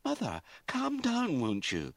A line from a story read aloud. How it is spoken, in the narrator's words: she pleaded